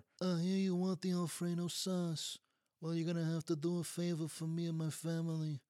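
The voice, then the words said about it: Godfather-style mobster movie voice. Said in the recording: “Every Italian restaurant in Niagara Falls has a Godfather impersonator.”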